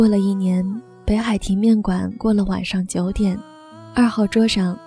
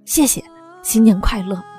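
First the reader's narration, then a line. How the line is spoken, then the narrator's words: Loud. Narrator (Chinese): 老板大声说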